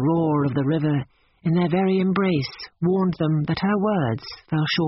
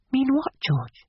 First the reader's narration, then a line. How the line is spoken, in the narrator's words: He whispered